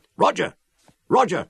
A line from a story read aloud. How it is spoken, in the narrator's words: I shouted